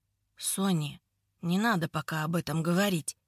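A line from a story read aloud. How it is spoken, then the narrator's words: Quiet speech. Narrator (Russian): произнес он тихо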